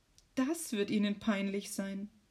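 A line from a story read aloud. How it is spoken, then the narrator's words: Sighed. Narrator (German): seufzt Maria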